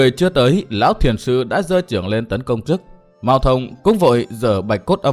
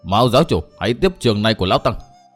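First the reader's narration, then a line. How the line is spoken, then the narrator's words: Frightened loud shout. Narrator (Vietnamese): Nhất Tâm đại sư thấy thế hoảng sợ vô cùng, mồm thì quát lớn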